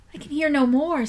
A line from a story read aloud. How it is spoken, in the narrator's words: said Charlotte in a tremulous voice